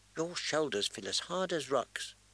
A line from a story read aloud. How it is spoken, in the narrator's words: she murmured